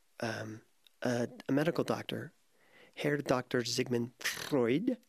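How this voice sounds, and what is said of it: Bad put-on German accent. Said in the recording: “forgive my bad German accent”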